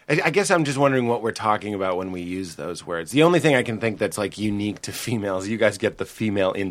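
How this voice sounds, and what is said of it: Usual voice. Nothing is said of it.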